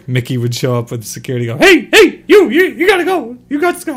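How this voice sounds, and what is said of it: Cartoon mouse character voice. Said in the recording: “That's the best impression you've ever done ... You're actually pretty good at Mickey.”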